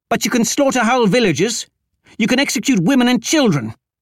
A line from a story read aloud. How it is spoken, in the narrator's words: snapped